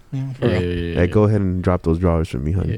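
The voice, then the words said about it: Deliberately deep low voice. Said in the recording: “keeping this voice permanently ... It's a little bit deeper ... Deep Voice”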